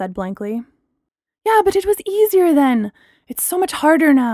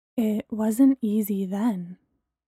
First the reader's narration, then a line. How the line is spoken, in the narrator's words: Bree said quietly